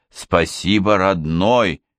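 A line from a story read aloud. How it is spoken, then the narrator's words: Plain. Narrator (Russian): говорит он погоняльщику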